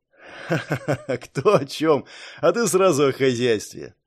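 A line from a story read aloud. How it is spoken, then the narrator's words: Mage laughing. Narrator (Russian): рассмеялся маг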